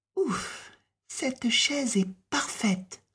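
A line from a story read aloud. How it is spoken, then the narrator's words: Sigh. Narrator (French): soupira-t-elle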